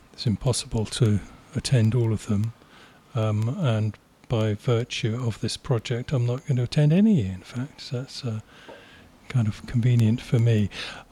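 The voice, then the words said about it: Polished radio announcer voice. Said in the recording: “you've got the best radio voice. It's fantastic.”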